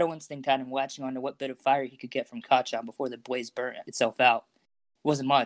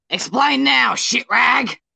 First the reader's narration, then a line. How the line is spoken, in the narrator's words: yelped